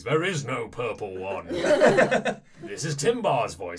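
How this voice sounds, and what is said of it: Booming character voice. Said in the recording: “You hear a voice booming over the kind of loudspeakers ... I'm trying a character voice.”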